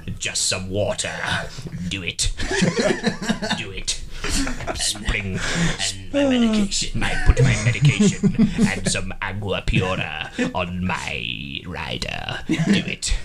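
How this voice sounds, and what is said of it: Imitates a movie villain's voice. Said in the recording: “It's a really good impression”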